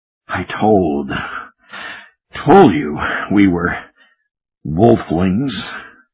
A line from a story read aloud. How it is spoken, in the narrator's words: he muttered